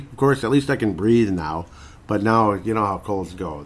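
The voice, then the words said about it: Voice sounds off from a cold. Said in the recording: “I've not been feeling my best ... my voice is a little bit funky”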